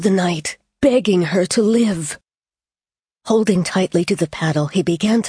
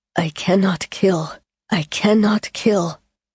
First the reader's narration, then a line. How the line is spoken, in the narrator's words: murmuring